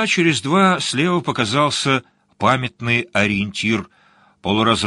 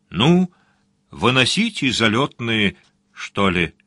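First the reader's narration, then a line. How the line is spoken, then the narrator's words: Quiet. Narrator (Russian): Сварог тихонько сказал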